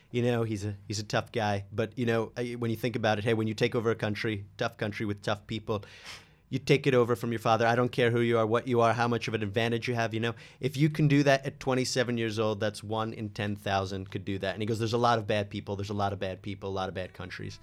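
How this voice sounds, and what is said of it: Good Trump impression. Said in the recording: “That's a very good impression”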